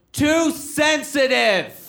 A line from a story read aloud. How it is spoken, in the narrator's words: a guy in the audience yells out